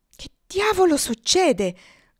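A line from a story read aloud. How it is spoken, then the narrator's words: Exclaimed. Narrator (Italian): esclamò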